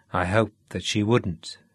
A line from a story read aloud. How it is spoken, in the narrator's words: said Sean